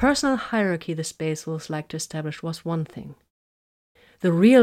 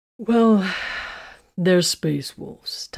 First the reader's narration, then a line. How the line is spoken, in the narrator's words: Titus sighed